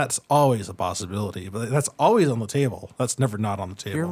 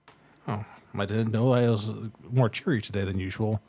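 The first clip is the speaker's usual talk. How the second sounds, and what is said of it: Sarcastic delivery. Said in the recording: “So good at the ... sarcasm.”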